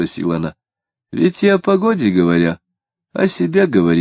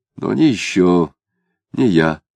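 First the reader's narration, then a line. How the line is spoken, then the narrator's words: Quiet and cautious. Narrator (Russian): начал он тихо и осторожно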